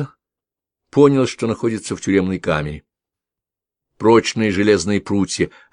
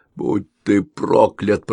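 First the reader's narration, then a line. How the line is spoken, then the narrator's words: Growled. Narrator (Russian): прорычал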